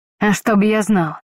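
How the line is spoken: Curt and angry. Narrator (Russian): коротко и зло откликнулся Лайза, явно проглотивший пару крепких словечек

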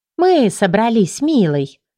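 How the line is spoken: Cooing. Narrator (Russian): проворковала Элина

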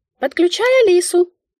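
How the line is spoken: Squeak inside head. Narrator (Russian): пискнула в моей голове Мика

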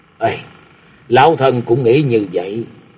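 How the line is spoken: Old woman sighing. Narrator (Vietnamese): La Sát bà thở dài nói

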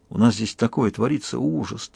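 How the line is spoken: Heavy sigh. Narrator (Russian): тяжко вздохнул Кишан

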